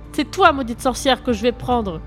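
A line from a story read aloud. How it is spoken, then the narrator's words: Shouted. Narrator (French): cria Bella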